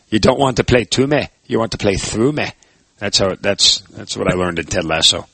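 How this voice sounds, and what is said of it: Imitation of Jamie Tartt character. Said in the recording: “Was that your Jamie Tartt impressions there? ... That was my Jamie Tartt impression,”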